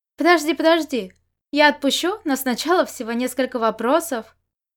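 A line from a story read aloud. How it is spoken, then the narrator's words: Laughing. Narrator (Russian): рассмеялся Можань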